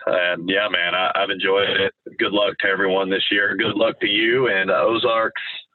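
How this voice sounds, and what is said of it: Raspy, sick-sounding voice. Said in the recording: “I'm currently under the weather, so excuse my raspy voice.”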